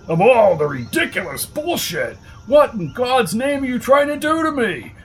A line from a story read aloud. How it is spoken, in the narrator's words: barked Hamilton Fletcher